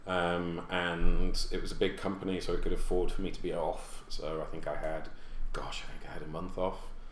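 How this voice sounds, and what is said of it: Non-American foreign accent. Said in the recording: “I consider myself a New Yorker and actually an American primarily despite my accent”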